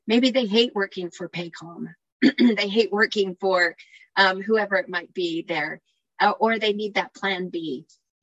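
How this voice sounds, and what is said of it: Slightly scratchy, worn voice. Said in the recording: “I've talked all day, so my voice is a little scratchy.”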